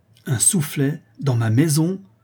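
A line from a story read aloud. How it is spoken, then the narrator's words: Outraged countess exclaiming. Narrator (French): s'écria la comtesse, véritablement outrée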